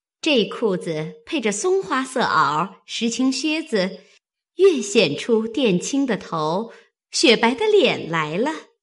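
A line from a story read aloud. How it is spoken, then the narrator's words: Laughing. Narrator (Chinese): 麝月笑道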